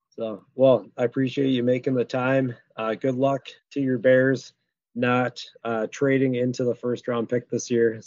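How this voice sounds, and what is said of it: Raspy voice. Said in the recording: “my raspy voice as I get healthy”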